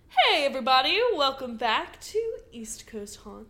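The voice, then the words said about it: Slight southern twang. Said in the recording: “That had a little bit of a southern twang to it.”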